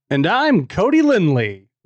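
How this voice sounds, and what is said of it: Exaggerated broadcaster radio voice. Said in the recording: “the most broadcasty voice I can do ... The golden radio voice”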